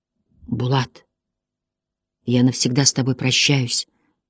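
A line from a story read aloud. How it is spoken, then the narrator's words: Quiet. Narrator (Russian): сказал он тихо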